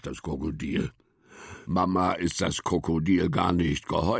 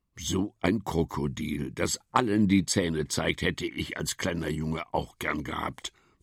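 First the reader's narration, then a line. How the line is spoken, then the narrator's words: Plain. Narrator (German): sagt Papa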